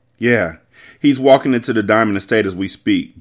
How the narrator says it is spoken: Jacobs said

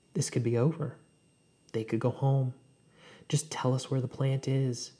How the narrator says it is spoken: Elliot says

